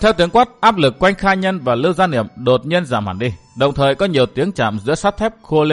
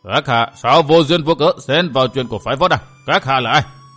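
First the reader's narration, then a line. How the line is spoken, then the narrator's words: Old man's roar. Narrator (Vietnamese): tiếng gầm của Hư Thanh Lão Đạo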